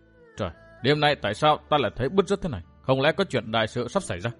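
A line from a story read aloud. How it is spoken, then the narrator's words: Anxious muttering. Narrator (Vietnamese): Trong lòng hết sức hồi hộp, bèn nói lẩm bẩm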